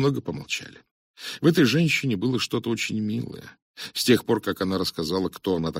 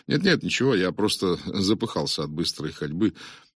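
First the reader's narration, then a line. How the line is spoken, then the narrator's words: Matter-of-fact. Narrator (Russian): добавил будничным тоном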